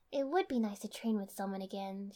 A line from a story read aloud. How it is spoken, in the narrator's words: she said, a little wistfully